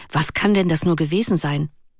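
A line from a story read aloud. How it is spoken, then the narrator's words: Remarking. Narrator (German): bemerkte Clara Bell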